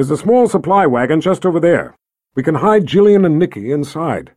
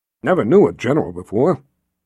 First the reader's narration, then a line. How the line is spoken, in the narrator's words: Bruce muttered